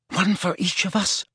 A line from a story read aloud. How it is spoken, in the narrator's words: said Hermione in a terrified whisper